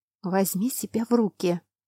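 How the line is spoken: Hissed under breath. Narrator (Russian): прошипела я себе под нос

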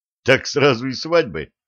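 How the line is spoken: Snort. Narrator (Russian): хмыкнул ликвидатор

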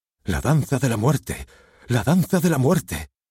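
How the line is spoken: All actors exclaiming together. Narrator (Spanish): todos los actores exclaman

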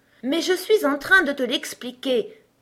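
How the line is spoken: King, impatient exclamation. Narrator (French): s'écria le roi d'un ton impatienté

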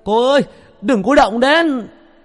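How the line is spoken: Shout. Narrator (Vietnamese): A Chiều hét lên

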